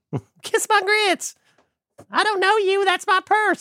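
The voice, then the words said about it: High-pitched impersonation of a character. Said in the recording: “Apparently I only have one high-voiced impersonation left.”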